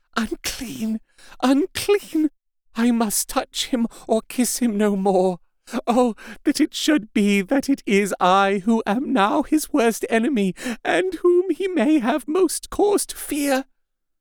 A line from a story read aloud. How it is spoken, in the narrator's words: with a low wail, and whispered amidst choking sobs